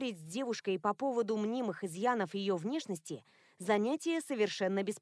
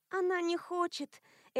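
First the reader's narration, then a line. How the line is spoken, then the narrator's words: Sigh. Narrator (Russian): Элоиза вздохнула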